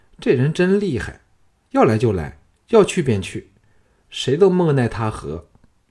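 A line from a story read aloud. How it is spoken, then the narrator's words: Sighing. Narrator (Chinese): 又叹道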